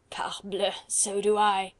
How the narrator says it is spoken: rejoined Collot with a coarse laugh

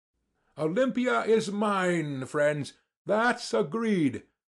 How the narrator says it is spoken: cried Sverkov

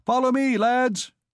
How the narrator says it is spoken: Jehan shouting

